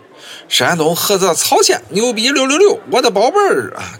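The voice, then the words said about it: Caoxian-accented hollering, rising-falling intonation. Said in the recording (Chinese): “用地道的曹县口音嚎上一嗓子 ... 前后语调是跌宕起伏，魔性十足”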